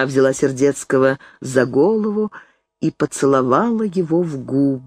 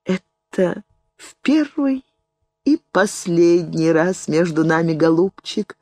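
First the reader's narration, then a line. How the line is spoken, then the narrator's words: Laughing and crying. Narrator (Russian): сказала она, смеясь и плача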